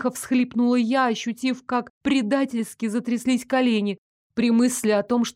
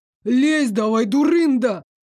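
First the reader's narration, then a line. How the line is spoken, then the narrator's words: Sudden bark from behind. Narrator (Russian): Вдруг рявкнул позади Дарек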